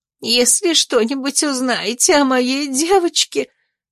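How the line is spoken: Sobbing. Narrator (Russian): всхлипнула опекунша

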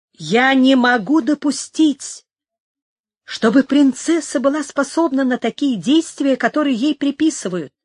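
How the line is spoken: Self-assured exclamation. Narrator (Russian): воскликнула Инесса самоуверенным тоном

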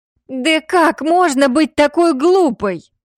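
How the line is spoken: Desperate yell. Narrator (Russian): В отчаянии заорала Хина

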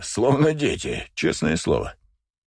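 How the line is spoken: Breathless after laughing. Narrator (Russian): отсмеявшись, выдохнул Найджел

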